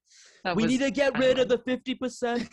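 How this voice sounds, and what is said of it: Imitates another person's voice. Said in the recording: “I'll break out my Bernie accent for Trump sometimes... Bring out the Bernie... Whenever you talk like Bernie.”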